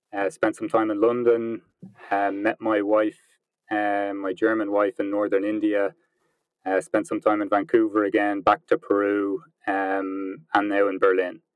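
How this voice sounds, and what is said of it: Irish accent. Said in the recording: “as you can probably tell by the accent, I'm from Ireland”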